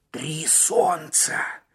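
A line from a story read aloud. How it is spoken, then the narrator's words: Hoarse mutter. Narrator (Russian): хрипло пробормотал Маккен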